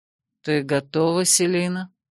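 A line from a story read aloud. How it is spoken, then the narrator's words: Low sensual voice. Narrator (Russian): поинтересовался он низким чувственным голосом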